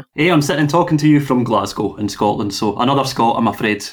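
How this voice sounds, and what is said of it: Glaswegian Scottish accent. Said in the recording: “You'd never guess from the accent. ... Not the easiest accent either, being Glaswegian”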